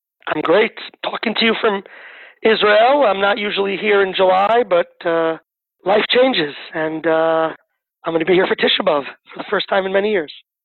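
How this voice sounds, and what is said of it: Non-Israeli accent. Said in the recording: “from the accent, I think it's quite clear that you're not a native Israeli, a native Sabra”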